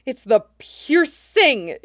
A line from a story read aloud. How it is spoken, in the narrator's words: his brain shrieks